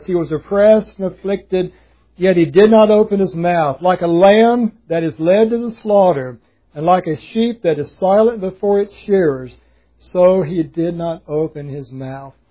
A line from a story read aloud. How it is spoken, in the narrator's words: Isaiah prophesied when he says